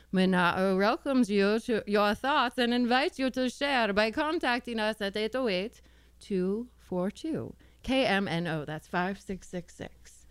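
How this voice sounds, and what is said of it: Put-on Transylvanian accent. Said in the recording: “I liked that Transylvanian accent.”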